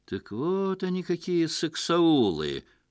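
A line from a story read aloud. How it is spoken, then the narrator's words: Knowing drawl. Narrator (Russian): понимающе протянул Лев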